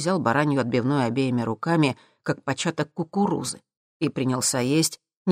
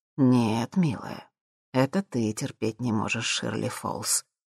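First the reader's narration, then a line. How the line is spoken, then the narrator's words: Tender remark. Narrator (Russian): нежным тоном заметил Джим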